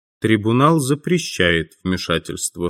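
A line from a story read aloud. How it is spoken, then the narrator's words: Dry announcement. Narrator (Russian): сухо объявил один из судей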